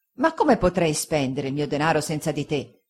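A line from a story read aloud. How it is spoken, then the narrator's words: Fisherman's grave remonstrance. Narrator (Italian): disse il pescatore Peggotty in tono di grave rimostranza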